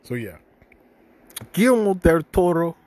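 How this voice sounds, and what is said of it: Name pronounced with an accent. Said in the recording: “I'm saying that shit with an accent out of respect.”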